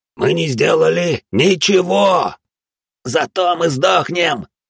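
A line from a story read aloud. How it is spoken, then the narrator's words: Wailing. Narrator (Russian): вопил он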